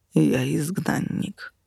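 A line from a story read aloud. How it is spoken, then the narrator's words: Muffled reply through door. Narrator (Russian): глухо ответили из-за двери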